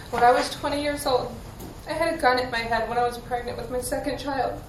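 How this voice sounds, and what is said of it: Emotional, voice close to tears. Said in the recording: “Not going to get emotional, sorry. ... I'm trying not to get emotional, I'm sorry.”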